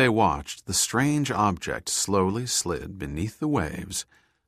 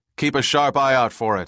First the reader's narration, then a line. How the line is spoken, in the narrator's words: Hunt shouted back